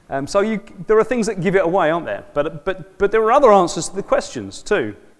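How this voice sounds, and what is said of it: South London accent. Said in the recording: “clearly by my accent, I don't come from here. I'm a South Londoner.”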